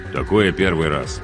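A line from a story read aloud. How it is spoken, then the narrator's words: Gruff mutter. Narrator (Russian): буркнул капитан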